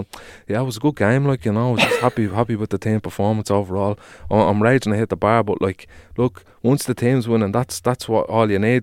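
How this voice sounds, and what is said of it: Put-on Dublin accent. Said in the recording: “Why has Yamal got a Dublin accent?”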